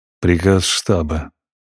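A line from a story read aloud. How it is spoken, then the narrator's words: Mutter. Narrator (Russian): пробурчал Зев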